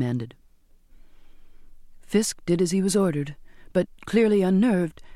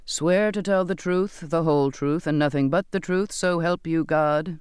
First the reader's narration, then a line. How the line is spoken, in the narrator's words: the captain intoned